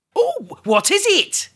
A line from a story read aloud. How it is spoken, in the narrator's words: cried Fred